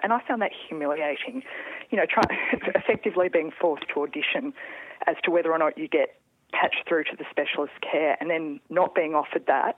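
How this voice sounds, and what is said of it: Shaky, trembling voice. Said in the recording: “you could probably hear in my voice, I'm shaking a little bit”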